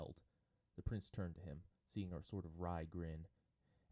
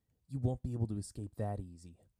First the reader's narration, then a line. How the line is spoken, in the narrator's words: Sokka said sharply